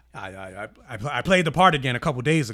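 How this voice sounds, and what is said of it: Imitates another person's voice. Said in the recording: “you're doing an impression of him?”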